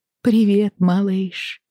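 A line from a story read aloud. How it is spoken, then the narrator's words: Tender, affectionate. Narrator (Russian): ласково сказала она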